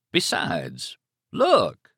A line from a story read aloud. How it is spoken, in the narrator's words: Stark cried, and there was something in his voice that she could not, would not, credit